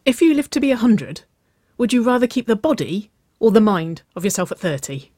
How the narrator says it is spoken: She asked excitedly

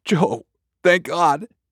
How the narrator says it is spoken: Josh sputtered

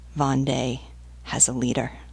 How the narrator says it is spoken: Bois Berthelot said softly to La Vieuville

